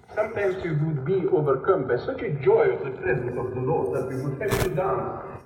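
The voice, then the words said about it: Romanian-accented English. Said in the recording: “The Romanian accent is a little hard to follow, but you get it.”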